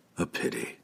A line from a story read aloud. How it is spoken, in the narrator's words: whispered, fully understanding